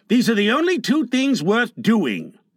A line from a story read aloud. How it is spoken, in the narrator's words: growled John